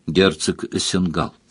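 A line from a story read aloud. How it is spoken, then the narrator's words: Quiet explanation. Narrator (Russian): тихо пояснила графиня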